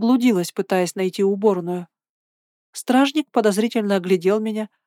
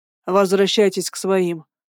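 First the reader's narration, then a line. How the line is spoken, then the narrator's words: Grumbling. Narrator (Russian): проворчал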